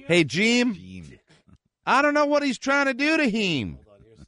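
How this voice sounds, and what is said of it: Mock Southern accent, stretched 'ee' vowels. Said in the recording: “I don't know what Southern accent it is, but it's heem, bean. It's E E. Jeem.”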